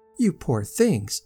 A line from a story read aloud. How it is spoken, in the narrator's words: exclaimed Miss Hawberk